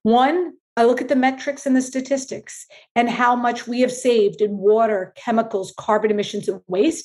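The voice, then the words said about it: New York City accent. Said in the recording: “if the accent doesn't give it away, I am a New York City girl”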